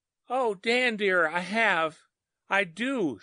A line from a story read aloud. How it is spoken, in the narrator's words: she cried, sobbing